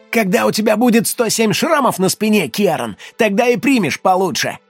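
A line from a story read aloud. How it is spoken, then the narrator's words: Snapping retort. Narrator (Russian): огрызнулся Боди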